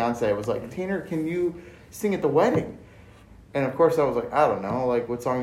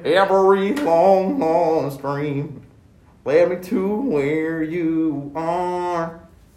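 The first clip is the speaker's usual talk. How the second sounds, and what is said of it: Singing with a put-on accent. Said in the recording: “You don't have to put on the accent.”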